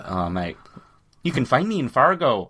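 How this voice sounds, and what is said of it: Poor Fargo accent, sounds Irish. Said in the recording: “I can't do the accent. ... That's Irish. ... It's not even a good Irish. ... It's Kermit the Frog.”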